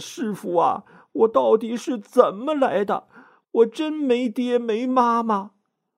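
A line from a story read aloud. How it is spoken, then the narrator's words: Tearful complaint. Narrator (Chinese): 唐僧实在是忍不住了，哭诉，说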